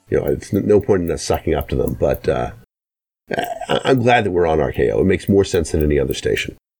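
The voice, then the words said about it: Slightly off, flu-affected voice. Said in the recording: “I have the flu right now ... my voice is a little off”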